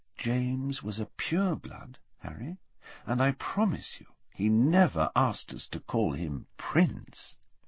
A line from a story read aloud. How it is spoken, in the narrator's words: said quietly